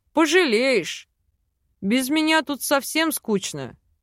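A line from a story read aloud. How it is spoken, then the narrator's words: Amused snort. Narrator (Russian): хмыкнул мужчина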